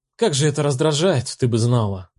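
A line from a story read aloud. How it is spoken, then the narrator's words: Sleepy drawl, prickly undertone. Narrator (Russian): Фраза хоть и звучала сонно, протянуто, но шипы, торчащие из нее, чувствовались почти физически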